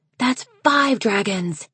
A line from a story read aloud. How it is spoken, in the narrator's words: Wren hissed at Snowfall